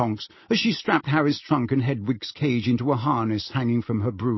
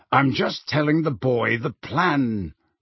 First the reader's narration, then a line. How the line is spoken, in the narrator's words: growled Moody